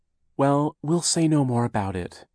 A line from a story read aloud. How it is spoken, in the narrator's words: Aunt Josephine said, looking nervously